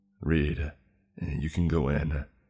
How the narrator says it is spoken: said in a hopeless voice

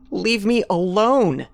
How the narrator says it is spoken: Carrie yelled

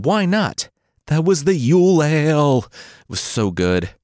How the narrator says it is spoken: The devil pleaded

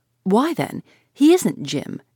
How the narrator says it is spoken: she exclaimed

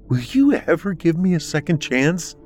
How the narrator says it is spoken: pleaded

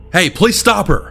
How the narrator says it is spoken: the man yelled after me

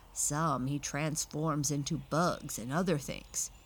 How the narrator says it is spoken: growled the bad bear's head

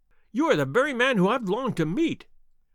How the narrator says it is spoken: cried the little fellow

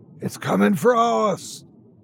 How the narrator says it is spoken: that same raspy voice saying

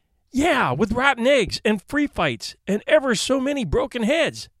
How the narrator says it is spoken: exclaimed Eric

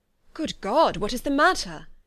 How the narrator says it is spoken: cried he, with more feeling than politeness

